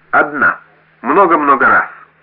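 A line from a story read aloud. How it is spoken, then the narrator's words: Shout. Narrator (Russian): выкрикнула Дуа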